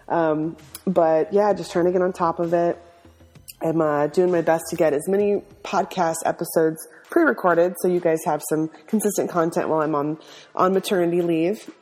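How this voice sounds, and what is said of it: Husky, congested voice. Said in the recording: “I'm fighting a little bit of a kind of a chest cold, so sorry for the sexy voice.”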